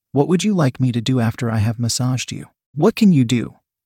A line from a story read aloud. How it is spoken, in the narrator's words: Paul asked